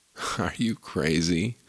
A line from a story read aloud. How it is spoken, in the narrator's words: sneered the other